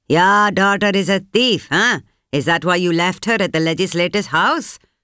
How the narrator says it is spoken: one of the muscle men bellowed

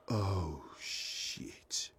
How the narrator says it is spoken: he mutters under his breath

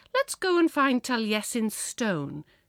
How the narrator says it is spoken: she must have said brightly

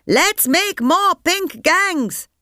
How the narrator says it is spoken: they shouted

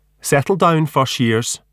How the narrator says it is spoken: she shouts

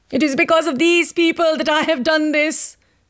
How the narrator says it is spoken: Fatima cried out

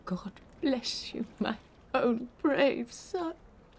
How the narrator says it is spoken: Grandma she sobbed

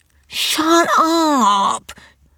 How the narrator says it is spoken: wail back

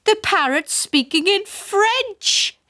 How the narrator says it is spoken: yelled

